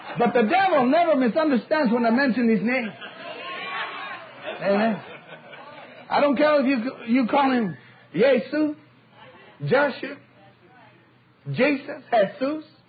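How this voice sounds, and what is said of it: Speaker with a foreign accent. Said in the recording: “I have an accent. ... I don't care if you pronounce it a little wrong”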